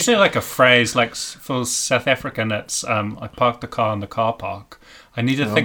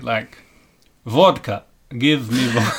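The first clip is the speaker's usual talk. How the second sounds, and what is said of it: Put-on Russian accent. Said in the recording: “I don't know what the Russian would be ... everyone attempts like a Russian accent”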